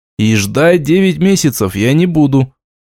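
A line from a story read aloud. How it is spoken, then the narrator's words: Grim remark. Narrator (Russian): оценил я мрачно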